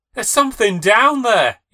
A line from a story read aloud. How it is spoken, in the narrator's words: shouts